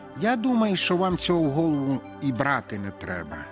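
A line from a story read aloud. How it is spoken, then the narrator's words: Plain. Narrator (Ukrainian): сказав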